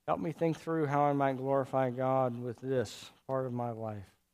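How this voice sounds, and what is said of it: Weak, tired voice. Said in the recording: “my voice is weak”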